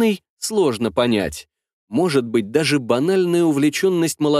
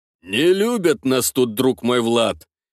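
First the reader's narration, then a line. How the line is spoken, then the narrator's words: Deep drunken voice. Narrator (Russian): пробасил изрядно подпивший Ивар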